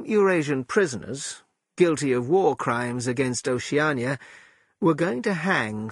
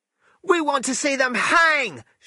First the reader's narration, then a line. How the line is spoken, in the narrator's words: shouted the boy